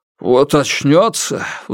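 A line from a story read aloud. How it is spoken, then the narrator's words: Sudden furious grumble, father-in-law. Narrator (Russian): вдруг пробурчал тесть, и его лицо исказилось от ярости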